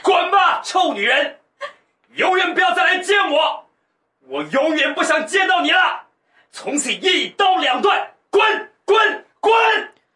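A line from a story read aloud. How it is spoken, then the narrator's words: Harsh shouted cursing. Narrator (Chinese): 房内厉声吼骂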